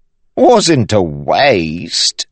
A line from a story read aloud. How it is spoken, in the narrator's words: DeChamp said, chuckling